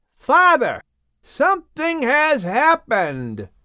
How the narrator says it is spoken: He yelled back

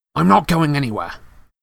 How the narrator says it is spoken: said Harry fiercely

